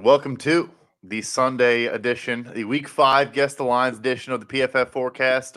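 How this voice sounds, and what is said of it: Imitates another person's voice. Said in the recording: “my best George impression.”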